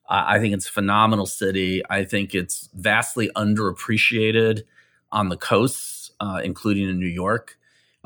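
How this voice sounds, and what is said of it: Midwestern American accent. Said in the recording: “You can probably hear the Midwestern in my accent.”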